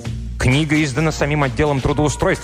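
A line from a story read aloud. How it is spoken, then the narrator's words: Sharp declaration. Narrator (Russian): резко заявила она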